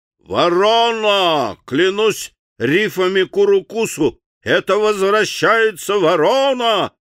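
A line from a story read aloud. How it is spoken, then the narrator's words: Sudden powerful yell. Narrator (Russian): заорал Чарли с неведомо откуда взявшейся силой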